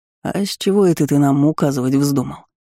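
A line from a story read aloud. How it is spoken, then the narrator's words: Drunken scoff. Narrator (Russian): Пьяно хмыкнул один из приставал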